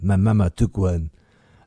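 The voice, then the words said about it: Put-on Belgian French accent. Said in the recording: “his little Van Damme, his little Belgian French accent.”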